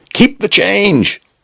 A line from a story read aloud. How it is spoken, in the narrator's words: he shouted